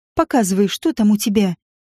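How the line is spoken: Laughing. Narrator (Russian): Он рассмеялся

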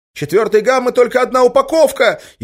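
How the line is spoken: Hysterical shout. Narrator (Russian): истерично закричал кто-то

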